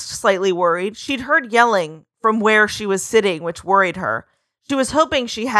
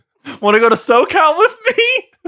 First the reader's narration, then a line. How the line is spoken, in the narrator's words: Jacob said, a little chuckle to himself